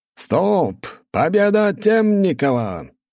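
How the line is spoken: Loud shout, referee. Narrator (Russian): громко крикнул судья

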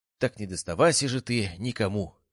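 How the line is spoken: Exclamation. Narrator (Russian): воскликнул

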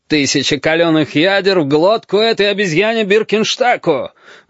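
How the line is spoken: Roaring. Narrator (Russian): взревел форт-майор

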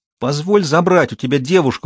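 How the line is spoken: Pleading. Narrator (Russian): взмолился Тарик

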